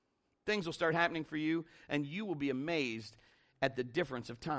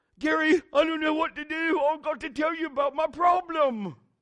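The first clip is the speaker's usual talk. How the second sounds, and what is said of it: Put-on unidentified accent. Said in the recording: “How about that accent, huh? That's pretty good. I don't even know what that was.”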